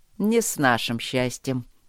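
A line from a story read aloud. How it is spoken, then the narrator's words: Smirking. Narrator (Russian): усмехнулся Трот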